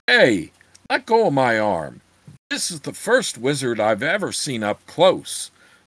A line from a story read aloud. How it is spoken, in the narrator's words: the big hillman bellowed